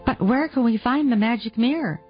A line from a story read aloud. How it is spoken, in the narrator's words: asked Rosina eagerly